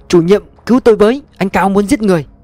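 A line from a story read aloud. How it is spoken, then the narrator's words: Panicked woman screaming. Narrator (Vietnamese): một người phụ nữ mặt dài ngoãng chạy choạng hét toáng lên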